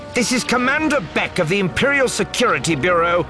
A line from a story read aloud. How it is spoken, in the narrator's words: the woman shouting